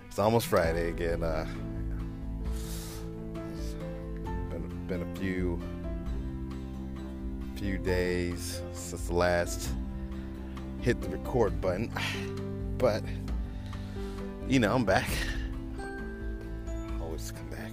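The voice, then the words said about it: Creepy put-on voice. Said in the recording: “I'm using my creepy voice today”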